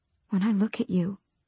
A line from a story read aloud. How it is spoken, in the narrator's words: she whispered